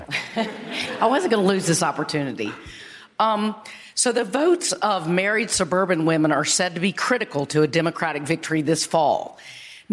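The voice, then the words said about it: Hoarse voice from laryngitis. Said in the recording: “A little bit of laryngitis”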